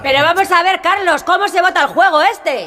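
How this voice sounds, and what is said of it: Shouting. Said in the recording (Spanish): “No grites.”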